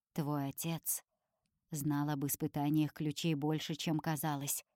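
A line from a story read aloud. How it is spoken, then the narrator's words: Man's whispered explanation. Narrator (Russian): шепотом объясняет мужчина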